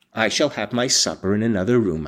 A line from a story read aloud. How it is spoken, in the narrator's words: said